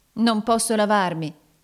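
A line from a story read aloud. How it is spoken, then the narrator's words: Exclaimed. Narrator (Italian): esclamò Nicola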